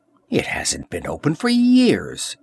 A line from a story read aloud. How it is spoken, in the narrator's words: exclaimed Valeria